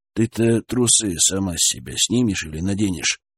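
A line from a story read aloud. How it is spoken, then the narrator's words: Unsure question. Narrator (Russian): спросил неуверенно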